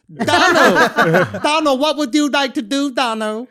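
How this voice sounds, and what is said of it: Put-on Vietnamese accent. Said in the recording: “Oh, is that a good accent? ... Good Vietnamese. ... You didn't think that was a good Vietnamese accent?”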